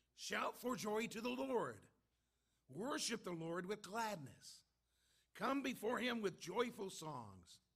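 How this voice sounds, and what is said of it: Raspy voice. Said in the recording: “my voice is a little raspy.”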